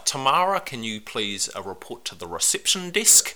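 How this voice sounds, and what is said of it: Exaggerated New Zealand airport announcement accent. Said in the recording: “a horrible Kiwi accent at the airport”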